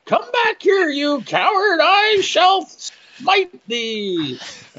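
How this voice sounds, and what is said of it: Yelled Labyrinth character voice. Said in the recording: “I'm yelling in a voice very similar to the character from Labyrinth”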